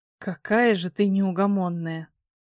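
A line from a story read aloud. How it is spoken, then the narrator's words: Grumble. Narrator (Russian): буркнул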